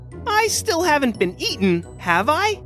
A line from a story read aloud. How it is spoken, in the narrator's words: squeaked the mouse